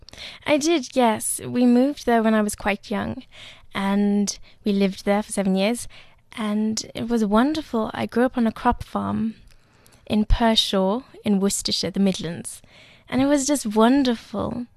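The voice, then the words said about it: Lovely, correct, posh accent. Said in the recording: “this lovely, correct, posh accent”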